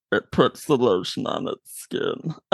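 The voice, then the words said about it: Deep, creepy movie-villain voice. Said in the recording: “You doing this deep, creepy voice and doing different lines for movies”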